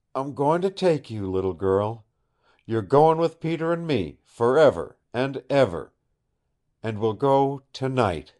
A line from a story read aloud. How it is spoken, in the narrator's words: he cried softly